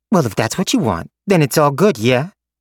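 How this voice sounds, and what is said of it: Brooklyn-like accent. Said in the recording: “whatever the hell her accent was. She sounded almost like she was from Brooklyn.”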